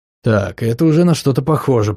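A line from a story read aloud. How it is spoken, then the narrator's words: Muttering. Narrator (Russian): пробормотал Сэл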